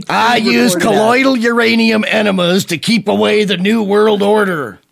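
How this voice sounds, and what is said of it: Imitates another person's voice. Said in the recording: “my imitation of... Wow, that's pretty good.”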